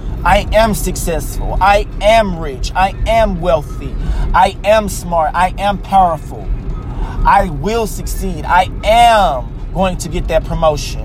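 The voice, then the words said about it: Passionate, emphatic delivery. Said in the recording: “hear the passion in my voice”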